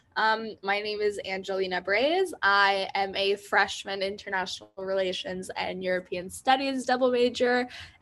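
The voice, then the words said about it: Peculiar-sounding voice, sore throat. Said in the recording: “my voice sounds peculiar. I have a sore throat”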